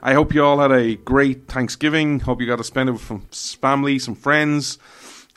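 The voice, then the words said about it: Irish accent. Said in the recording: “This Irish man stands with America ... you come for the accent”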